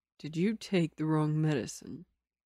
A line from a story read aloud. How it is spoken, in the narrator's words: Lin Ching Yu asked Liu Wancheng quietly